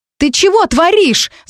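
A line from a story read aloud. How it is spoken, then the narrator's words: Yelled. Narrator (Russian): заорала Маринка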